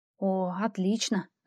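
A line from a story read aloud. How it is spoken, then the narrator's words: Hissed. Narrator (Russian): зашипела я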